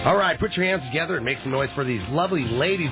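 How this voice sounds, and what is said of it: Strip club DJ announcer voice. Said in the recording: “do your best strip club DJ impression ... as strip club DJ.”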